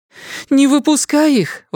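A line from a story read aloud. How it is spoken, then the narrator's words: Exclaiming. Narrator (Russian): воскликнула она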